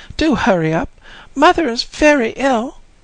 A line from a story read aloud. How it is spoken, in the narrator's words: she cried